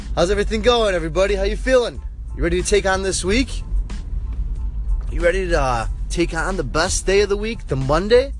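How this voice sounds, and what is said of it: Congested, stuffed-up sick voice. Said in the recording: “Excuse my voice, I am coming down with some sickness. I'm a little stuffed up”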